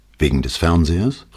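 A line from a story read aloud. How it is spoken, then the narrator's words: Plain question. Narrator (German): fragte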